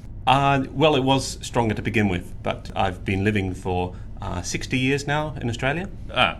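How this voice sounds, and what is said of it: Mild put-on German accent. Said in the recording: “I thought your German accent would be a bit stronger.”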